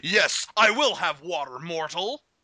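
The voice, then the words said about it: Thor-like character accent. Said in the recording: “I would occasionally lapse into Thor accent”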